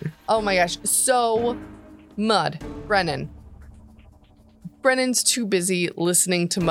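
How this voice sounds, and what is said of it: Usual voice. Nothing is said of it.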